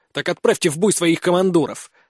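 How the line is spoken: Angry. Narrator (Russian): зло произнес я

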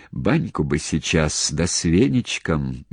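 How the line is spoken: Dreamy sigh. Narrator (Russian): мечтательно вздохнул он

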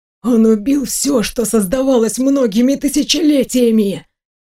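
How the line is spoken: Hissing. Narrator (Russian): прошипел Вийон

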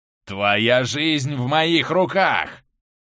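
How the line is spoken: Bloodthirsty growl. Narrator (Russian): Кровожадно, как умеет только он, прорычал Плинта

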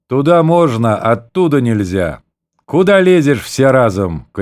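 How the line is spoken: Shouting. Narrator (Russian): крикнул он на полковые повозки

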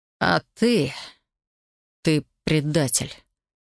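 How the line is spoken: Quiet hiss. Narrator (Russian): тихо прошипел в тишину Элай

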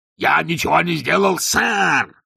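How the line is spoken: Yelling. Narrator (Russian): заорал Детрит

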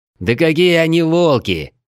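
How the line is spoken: Indignant growl. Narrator (Russian): возмущенно рыкнул Крим

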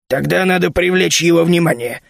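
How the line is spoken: Sudden menacing roar. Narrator (Russian): сказал Фархас и вдруг грозно заревел

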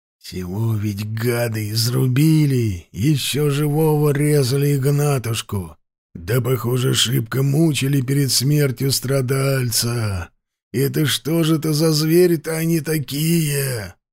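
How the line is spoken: Creaky, dull, hollow voice. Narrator (Russian): проскрипел Карпыч каким-то тусклым и пустым голосом

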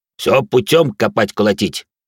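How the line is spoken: Deep bass voice. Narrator (Russian): пробасил он

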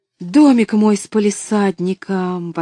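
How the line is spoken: Exclaimed. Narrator (Russian): воскликнула она

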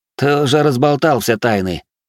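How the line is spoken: Snorted. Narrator (Russian): фыркнул Эриний

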